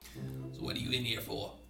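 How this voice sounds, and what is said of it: Raspy heavy-smoker character voice. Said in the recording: “She sounds like she's got a 6-pack-a-day voice ... I'm losing my voice”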